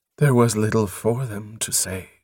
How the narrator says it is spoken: she replied in a flat voice

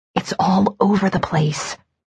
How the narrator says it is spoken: I whispered

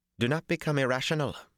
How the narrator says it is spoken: she broke in sharply

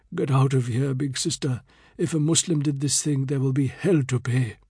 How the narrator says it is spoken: Hanif whispered

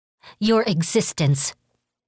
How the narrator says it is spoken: Kiyoshi spat

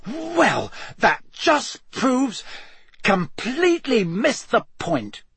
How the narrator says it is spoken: he sputtered, looking thunderstruck

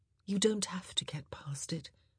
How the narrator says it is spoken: she said again, her words blowing softly between them

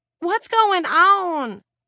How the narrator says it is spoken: Lenny wailed

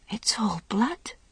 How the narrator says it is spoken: he whispered

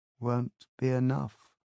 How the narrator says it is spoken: said dreamily

